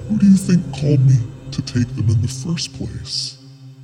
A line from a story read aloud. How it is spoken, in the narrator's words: with an evil laugh, the voice in the van said